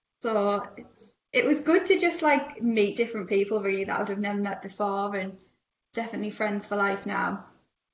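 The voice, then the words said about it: Strong regional accent. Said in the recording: “they were just all fascinated with my accent. Like, I didn't realize how much of a strong accent I had ... how strong my accent was”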